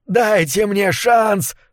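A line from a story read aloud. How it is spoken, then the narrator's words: Shouting, then screaming. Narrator (Russian): прокричал он, а потом завопил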